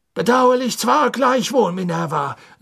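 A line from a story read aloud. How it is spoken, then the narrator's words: Said loudly. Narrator (German): sagte Cornelius Fudge laut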